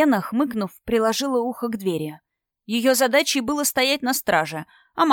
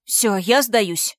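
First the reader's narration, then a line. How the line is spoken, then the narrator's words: Exhaled words. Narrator (Russian): выдохнула я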